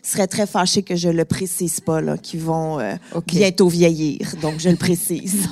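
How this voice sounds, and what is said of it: Montreal Quebec French accent. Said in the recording (French): “mon accent m'a un petit peu trahi, je viens de Montréal”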